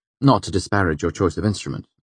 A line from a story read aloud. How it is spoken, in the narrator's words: I said quickly